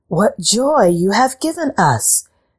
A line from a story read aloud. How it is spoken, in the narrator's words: cried the cat queen